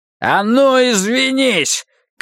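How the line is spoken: Shout. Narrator (Russian): крикнул Риттер

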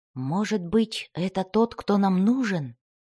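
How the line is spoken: Whisper. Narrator (Russian): прошептал Дзирт

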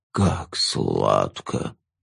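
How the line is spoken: Moaning ghoul. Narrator (Russian): стонал упырь

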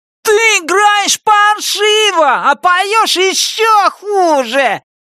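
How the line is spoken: Shout. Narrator (Russian): выкрикнул он

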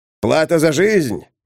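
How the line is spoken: Cheeky question. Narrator (Russian): Нагловатым тоном спросил Арпус Нисходительный

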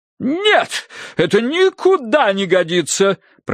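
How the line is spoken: Booming woman. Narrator (Russian): прогремела миссис Меринг

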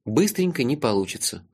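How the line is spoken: Sighing. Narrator (Russian): вздохнул я

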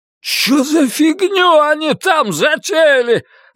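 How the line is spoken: Yelled. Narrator (Russian): заорал Фил

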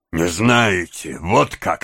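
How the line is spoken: Menacing. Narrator (Russian): сказал Сайкс, злобно на него глядя

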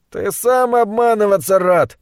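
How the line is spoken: Laughing reply. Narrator (Russian): ответил Керн, смеясь

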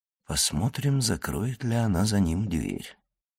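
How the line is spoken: Muttered. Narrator (Russian): пробормотал он

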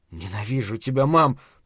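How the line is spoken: Whisper. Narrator (Russian): прошептал он

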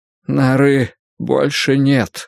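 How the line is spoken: Breathless exhale. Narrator (Russian): выдохнул Эмиль

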